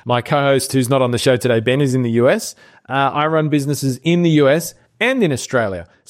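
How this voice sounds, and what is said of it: Australian accent. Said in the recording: “You can tell by my accent, however, that I am Australian.”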